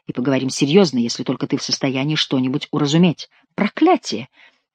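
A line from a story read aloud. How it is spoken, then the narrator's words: Plain. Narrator (Russian): сказал Гранфло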